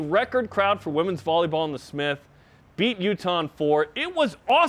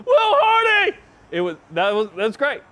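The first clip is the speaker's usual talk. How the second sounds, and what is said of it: Excited imitation of another person's voice. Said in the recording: “a great impersonation of Shep ... I don't know if it's Dick Vitale or me doing the Bluegrass.”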